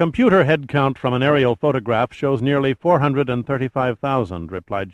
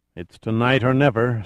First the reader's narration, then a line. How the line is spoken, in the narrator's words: sighed Nichols wearily